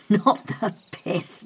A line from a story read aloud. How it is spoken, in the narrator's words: laughed Adam